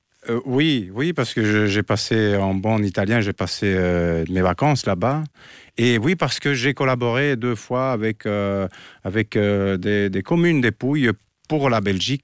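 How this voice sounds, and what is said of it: Italian accent in French. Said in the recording (French): “votre bel accent italien”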